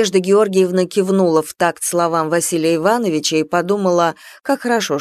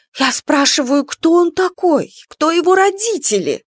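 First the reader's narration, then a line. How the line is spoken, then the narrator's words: Excited exclamation. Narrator (Russian): воскликнула Лариса азартно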